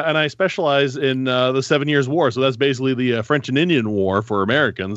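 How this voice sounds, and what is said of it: Northern Ontario Canadian accent. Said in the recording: “I'm French Canadian, despite the goofy Northern Ontario accent.”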